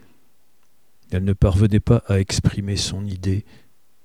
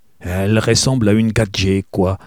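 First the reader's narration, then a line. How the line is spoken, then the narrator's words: Gruff. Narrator (French): ajouta-t-elle finalement d'un ton bourru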